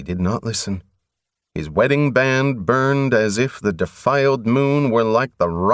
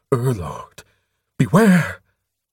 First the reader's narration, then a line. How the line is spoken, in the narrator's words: Vaguely, Covenant heard the High Lord gasp against the dead air